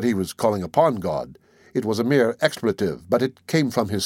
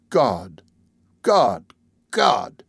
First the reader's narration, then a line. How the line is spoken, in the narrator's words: I could hear him groaning